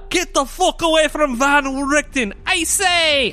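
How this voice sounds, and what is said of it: Mocking imitation of another's accent. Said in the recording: “why am I using your accent? ... I'm a dwarf now. ... I'm going to mock you.”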